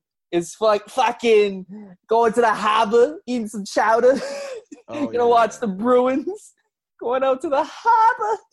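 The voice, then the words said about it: Boston accent. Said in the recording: “What's the Boston accent?”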